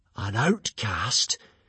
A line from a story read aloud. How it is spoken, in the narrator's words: gasped the hooligans